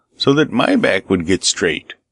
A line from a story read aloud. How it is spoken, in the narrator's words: exclaimed the shepherd